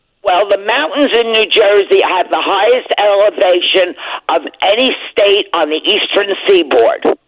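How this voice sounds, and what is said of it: New Jersey accent. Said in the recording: “I can tell by the accent ... I'm from New Jersey”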